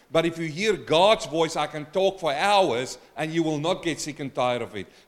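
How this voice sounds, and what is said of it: Speaks with a noticeable accent. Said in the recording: “you will get sick and tired of this accent.”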